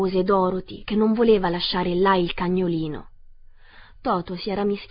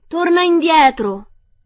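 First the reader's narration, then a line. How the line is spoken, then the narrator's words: Yelled. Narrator (Italian): urlò Dorothy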